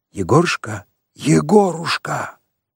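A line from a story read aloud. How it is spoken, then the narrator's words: Deep two-voice whisper. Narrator (Russian): раздался густой шепот двух голосов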